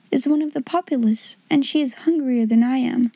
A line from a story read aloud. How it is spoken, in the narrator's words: she said to herself with a little sigh